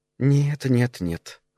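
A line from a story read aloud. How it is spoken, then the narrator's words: Purring voice. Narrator (Russian): замурлыкала она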